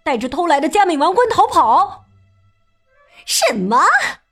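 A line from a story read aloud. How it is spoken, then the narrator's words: Exclaiming. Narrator (Chinese): 尚美太太叫道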